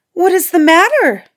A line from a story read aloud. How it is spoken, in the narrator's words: she cried